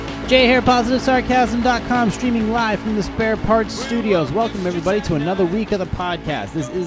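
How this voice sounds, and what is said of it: Usual voice. Nothing is said of it.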